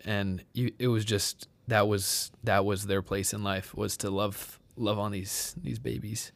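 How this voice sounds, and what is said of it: Choked-up, emotional voice. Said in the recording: “Sorry, I'm getting choked up.”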